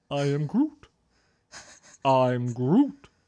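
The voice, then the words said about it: Groot character voice. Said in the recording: “I do a great Groot impersonation.”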